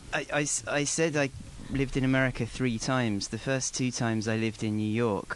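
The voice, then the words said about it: English accent. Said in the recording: “Does Toastmasters try to get rid of accents or regionalisms ... only one person ever commented on my accent ... people compliment my accent”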